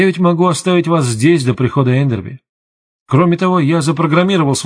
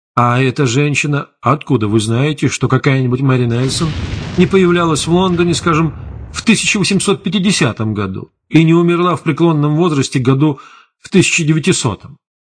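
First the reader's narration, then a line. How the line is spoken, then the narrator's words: Grim smirk. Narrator (Russian): Патрульный мрачно усмехнулся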